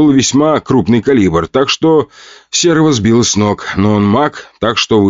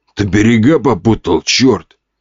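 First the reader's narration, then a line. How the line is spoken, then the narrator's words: Growling. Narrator (Russian): рыкнул лысый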